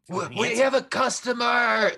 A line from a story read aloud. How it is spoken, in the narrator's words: Ingot yells out